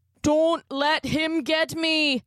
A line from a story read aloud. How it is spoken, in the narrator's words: Connor cried